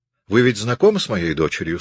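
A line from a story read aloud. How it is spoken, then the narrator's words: Plain. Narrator (Russian): сказала она гостям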